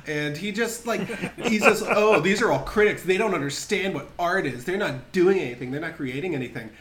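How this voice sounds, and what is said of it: Usual voice. Nothing is said of it.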